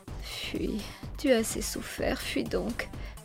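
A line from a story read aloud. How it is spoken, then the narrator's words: Sobbing to herself. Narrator (French): se disait-elle entre deux sanglots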